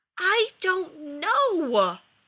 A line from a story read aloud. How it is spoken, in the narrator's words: yelled Rodney, anguished